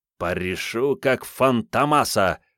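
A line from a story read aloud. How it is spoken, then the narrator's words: Menacing through teeth. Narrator (Russian): процедил Ванька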